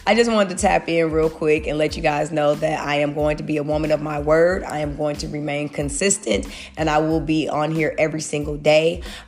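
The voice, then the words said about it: Congested, under-the-weather voice. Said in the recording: “I'm still under the weather. If you can hear it in my voice ... clear up my sinus and allergies”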